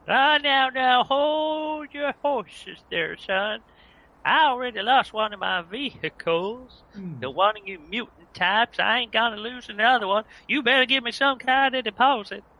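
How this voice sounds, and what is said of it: Put-on cowboy drawl like Woody. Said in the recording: “this accent ... he sounds like Woody from Toy Story ... Chaps, that's not really appropriate for this accent.”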